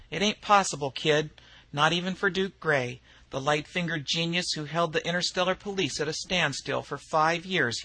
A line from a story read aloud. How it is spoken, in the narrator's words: he laughed